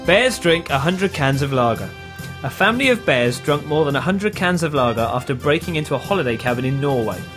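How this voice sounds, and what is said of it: Very serious newsreader voice. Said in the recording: “reads it in his very serious news voice that he's got”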